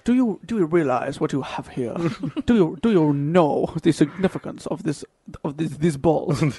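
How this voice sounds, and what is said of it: Put-on accent, English turning French. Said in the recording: “What accent? ... changed a lot there. It went from like English to French very quickly.”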